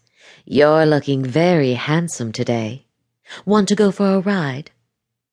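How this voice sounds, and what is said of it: Purring, sultry seductive voice. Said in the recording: “she purred in her best sexy voice.”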